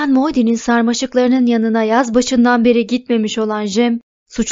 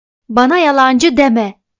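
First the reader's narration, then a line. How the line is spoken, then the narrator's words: Shouting. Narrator (Turkish): Bayan Dubos bağırıyordu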